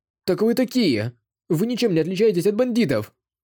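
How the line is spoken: Furious shout. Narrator (Russian): В ярости крикнул Дагоу Цзы

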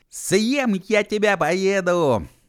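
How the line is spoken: Shouting into silent night. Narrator (Russian): закричал он в тишину в ночь

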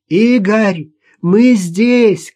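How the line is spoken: Shout. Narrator (Russian): крикнула она

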